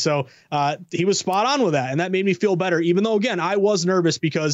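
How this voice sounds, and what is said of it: Usual voice. Nothing is said of it.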